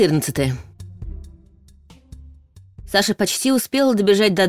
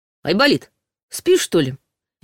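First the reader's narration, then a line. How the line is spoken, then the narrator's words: Cheerful. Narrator (Russian): весело отозвался Ваня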